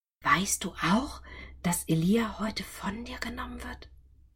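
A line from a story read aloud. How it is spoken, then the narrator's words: Whispered question. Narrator (German): diese … fragten ihn im Flüsterton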